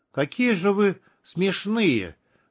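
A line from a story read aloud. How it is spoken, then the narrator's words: Pained voice. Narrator (Russian): сказал он страдальческим голосом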